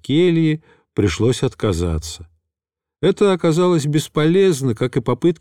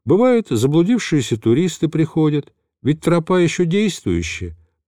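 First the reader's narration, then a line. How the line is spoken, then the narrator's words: Thin little voice explaining. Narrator (Russian): принялся пояснять тоненьким голоском отец Херувим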